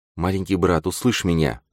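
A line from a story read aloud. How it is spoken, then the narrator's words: Heartfelt whisper. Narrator (Russian): прошептала она, испуская слова из глубины сердца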